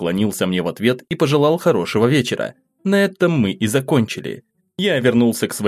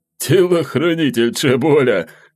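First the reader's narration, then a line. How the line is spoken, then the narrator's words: Laughing. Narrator (Russian): рассмеялся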